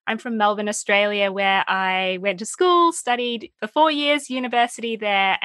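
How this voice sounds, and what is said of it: Australian accent. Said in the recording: “I studied in Australia. You can probably tell by my accent.”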